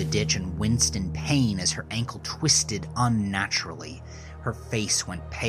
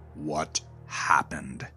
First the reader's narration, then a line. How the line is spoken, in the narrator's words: Eric growled at Gerald